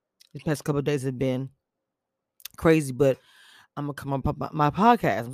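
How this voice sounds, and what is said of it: Stuttering speech. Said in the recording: “I'm stuttering”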